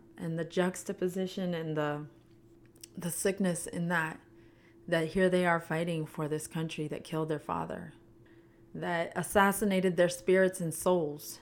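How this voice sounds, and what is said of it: Emotional, strained voice. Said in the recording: “getting emotional”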